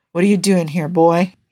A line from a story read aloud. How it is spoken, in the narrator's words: he asked, his voice raw and rough